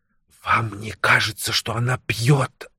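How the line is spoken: Hissing whisper. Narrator (Russian): шипящим шепотом сказала мисс Минтон

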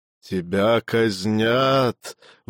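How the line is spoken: Breathed out. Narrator (Russian): выдохнул он

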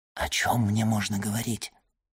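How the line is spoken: Whispered question. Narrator (Russian): шепотом спросил Альбер графа

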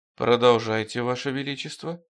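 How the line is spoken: Quiet. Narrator (Russian): тихо сказал Стремглав

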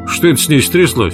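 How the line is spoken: Asked sternly. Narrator (Russian): строго спросил Фрэнк

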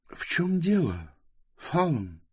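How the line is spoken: Quiet. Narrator (Russian): тихо сказала Близ

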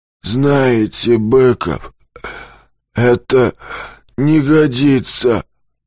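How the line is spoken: Hoarse but calm voice. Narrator (Russian): Голос сиплый, но спокойный

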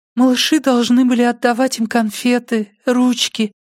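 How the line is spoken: Thin little voice. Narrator (Russian): продолжала она тонким голоском

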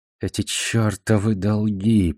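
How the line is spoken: Mutter. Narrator (Russian): пробормотал он

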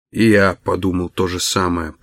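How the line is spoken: Muttering. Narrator (Russian): пробормотал Даллас

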